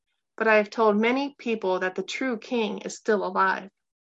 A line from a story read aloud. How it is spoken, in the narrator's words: Gabe called out, his voice stronger